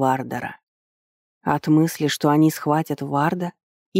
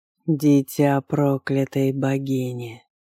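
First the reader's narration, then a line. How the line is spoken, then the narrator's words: Eerie croak. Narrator (Russian): прохрипел он жутко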